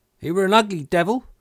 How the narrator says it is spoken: cried a third pirate, with a shudder

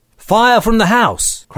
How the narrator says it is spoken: cried the doctor

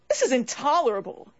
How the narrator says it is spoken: cried the young lady nurse

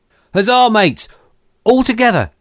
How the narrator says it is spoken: shouted Merry

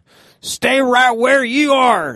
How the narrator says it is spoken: yelled the farmer

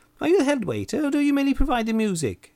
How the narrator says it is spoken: asked, in a shrill voice

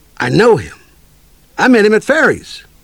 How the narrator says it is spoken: Russo exclaimed

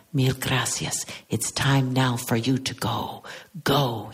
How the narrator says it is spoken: whispering again

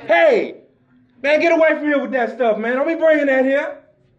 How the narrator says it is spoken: white resident, yells out at us

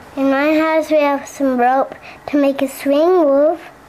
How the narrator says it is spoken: One girl timidly said

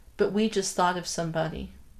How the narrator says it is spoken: she said quietly

